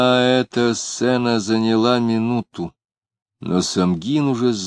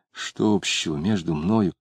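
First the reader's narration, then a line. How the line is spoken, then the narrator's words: Muttering. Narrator (Russian): Самгин бормотал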